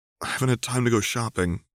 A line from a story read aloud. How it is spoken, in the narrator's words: Alexandra said, suppressing a yawn